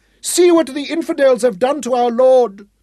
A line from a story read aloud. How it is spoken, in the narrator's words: the old woman wailed as she saw Grey's body hanging from the rope